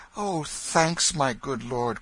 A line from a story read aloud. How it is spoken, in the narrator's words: cried the boy